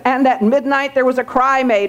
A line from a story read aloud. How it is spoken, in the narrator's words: or a shout made